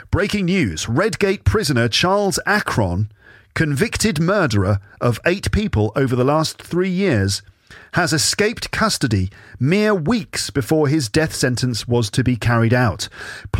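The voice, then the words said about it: British accent. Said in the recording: “my British accent, basically. Just what's most natural to me.”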